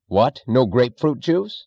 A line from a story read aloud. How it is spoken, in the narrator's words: he snapped